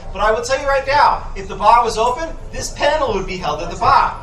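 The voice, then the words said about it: Boston accent. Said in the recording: “I'm just from Boston, Massachusetts, and when the accent comes out, it kind of continues to go out. It's wicked.”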